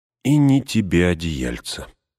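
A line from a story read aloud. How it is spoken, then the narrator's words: Sigh. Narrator (Russian): вздохнул Мэри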